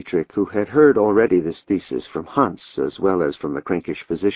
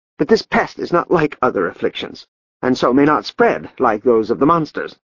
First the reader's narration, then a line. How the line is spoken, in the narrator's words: said Klaus in a high, tight voice